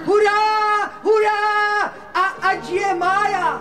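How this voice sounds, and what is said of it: Shouting excitedly. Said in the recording (Czech): “nekřič”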